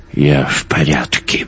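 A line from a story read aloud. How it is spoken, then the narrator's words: Mutter. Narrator (Russian): буркнул Йонс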